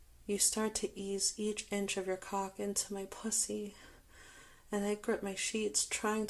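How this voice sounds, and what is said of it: Usual voice. Nothing is said of it.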